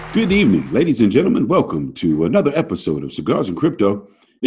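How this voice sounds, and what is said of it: Professional radio announcer voice. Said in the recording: “You got a very professional radio voice, sir.”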